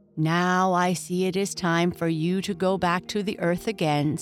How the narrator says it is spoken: said Mother Hulda

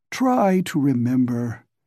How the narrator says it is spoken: he said wearily

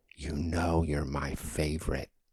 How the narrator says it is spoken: She'd put her lips softly to my ear as she stuffed the bill into my palm and whisper

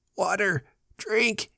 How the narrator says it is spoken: he begged when he had choked and coughed

